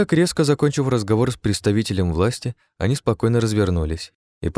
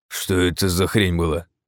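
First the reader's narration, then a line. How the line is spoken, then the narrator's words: Strained, forced out. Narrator (Russian): выдавил БФГ, когда они вышли из предела услышимости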